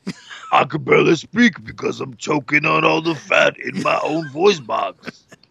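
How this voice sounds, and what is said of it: Funny put-on character voice. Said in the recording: “That's why I do this funny voice.”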